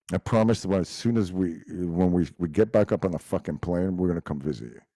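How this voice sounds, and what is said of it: Montreal accent, sounds New York-like. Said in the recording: “A lot of people think it's a New York accent. Actually, I'm from Montreal, so Quebec ... my first language was French”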